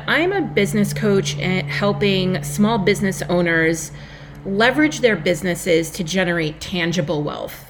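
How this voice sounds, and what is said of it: New York Long Island accent. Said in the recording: “if you cannot tell by my accent, I am a New Yorker from Long Island, New York”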